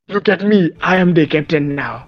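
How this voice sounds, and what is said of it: Character voice with made-up accent. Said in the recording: “that voice ... It's mocking a character ... I'm mocking a made-up accent.”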